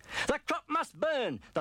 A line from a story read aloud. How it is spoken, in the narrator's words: the farmer cried